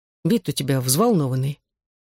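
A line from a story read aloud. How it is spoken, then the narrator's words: Quiet. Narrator (Russian): тихо сказал он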